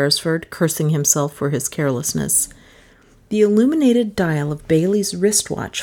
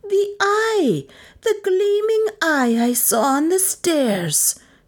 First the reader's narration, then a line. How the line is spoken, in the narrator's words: she shrieked frenziedly